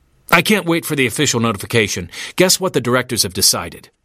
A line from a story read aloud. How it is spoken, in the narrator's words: he blurted out